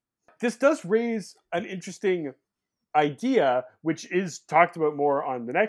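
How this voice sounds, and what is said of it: Usual voice. Nothing is said of it.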